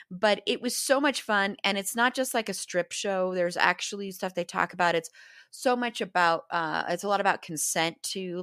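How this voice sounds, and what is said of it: Slightly hoarse voice. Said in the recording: “my voice is still a little hoarse from that. I did completely lose my voice um, from yelling and screaming”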